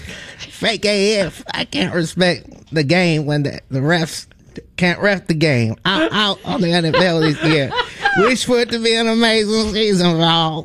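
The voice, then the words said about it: Imitates another person's voice. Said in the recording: “I have my Lil Wayne impression. ... That's pretty good.”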